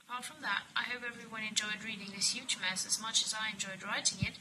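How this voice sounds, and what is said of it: Non-native English accent, inconsistent. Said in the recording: “forgive me for my voice, which is not my fault, and forgive me for my accent flowing all over the place ... not a native speaker”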